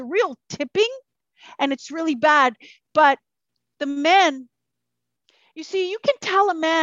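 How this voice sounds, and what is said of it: Usual voice. Nothing is said of it.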